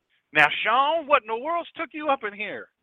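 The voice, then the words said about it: Heavy Mississippi accent. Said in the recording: “he had a real heavy Mississippi accent”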